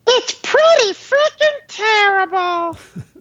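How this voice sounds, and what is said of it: Elmo impression. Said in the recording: “does a very good Elmo impersonation.”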